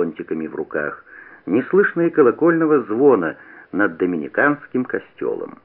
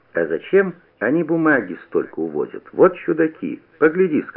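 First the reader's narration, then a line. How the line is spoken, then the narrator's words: Plain. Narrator (Russian): сказал Куница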